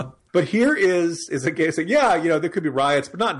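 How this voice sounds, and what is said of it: Usual voice. Nothing is said of it.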